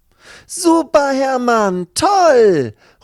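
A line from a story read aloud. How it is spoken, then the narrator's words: Delighted girlfriend shouting. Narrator (German): ruft seine Freundin Lucy, die sich sehr über diesen Anblick freut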